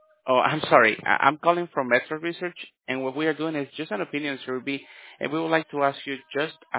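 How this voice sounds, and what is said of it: Usual voice. Nothing is said of it.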